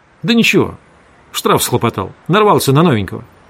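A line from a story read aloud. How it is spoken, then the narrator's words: Curt, clipped. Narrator (Russian): Водитель сказал отрывисто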